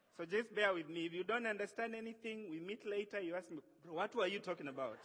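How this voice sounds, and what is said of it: East African accent. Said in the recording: “I come from East Africa, and we have an accent. So some words might not come out the way they come out down here.”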